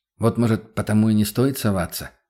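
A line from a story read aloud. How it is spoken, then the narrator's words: Doubtful mutter. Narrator (Russian): с сомнением пробормотал я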